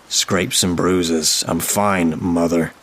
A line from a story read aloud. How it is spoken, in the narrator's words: growled